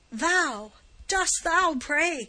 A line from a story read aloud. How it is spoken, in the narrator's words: cried Giovanni, still with the same fiendish scorn